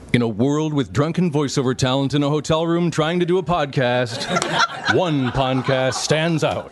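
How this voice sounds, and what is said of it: Dramatic movie trailer announcer voice. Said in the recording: “your best movie trailer voice”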